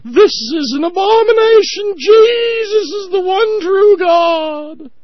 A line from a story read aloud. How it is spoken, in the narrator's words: the right-wing religious fundamentalist idiots, the morons, the yahoos, to begin screaming